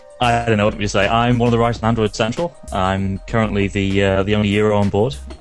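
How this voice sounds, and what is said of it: British accent. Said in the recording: “From the UK ... You got an accent.”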